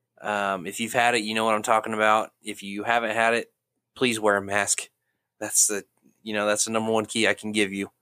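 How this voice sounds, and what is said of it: Congested, stuffed-up voice. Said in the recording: “I'm still a little stuffed up, if you can tell from my voice”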